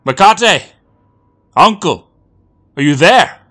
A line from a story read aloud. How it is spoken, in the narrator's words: Miko called out